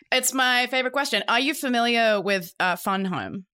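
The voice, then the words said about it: Australian accent. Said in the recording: “I don't know what you said because of your accent. ... The cosmic burden of being Australian.”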